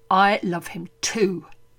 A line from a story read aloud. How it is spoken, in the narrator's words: Georgiana snarls, colour high in her cheeks